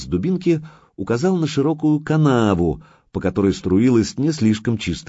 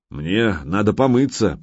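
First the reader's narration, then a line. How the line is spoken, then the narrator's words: Muttered. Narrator (Russian): пробормотал Гучко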